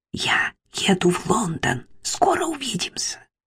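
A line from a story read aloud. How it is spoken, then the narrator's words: Whisper in ear. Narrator (Russian): Юнипер прошептала Мэри на ухо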